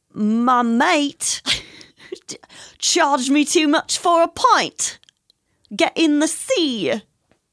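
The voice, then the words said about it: Poor put-on British accent. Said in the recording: “But like British ... No, that was horrible.”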